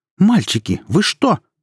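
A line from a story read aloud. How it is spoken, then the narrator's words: Sudden cry. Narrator (Russian): вскрикнула она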